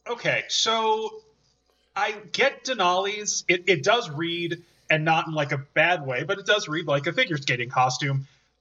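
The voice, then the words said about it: Chicago accent. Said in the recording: “Can you hear my Chicago accent?”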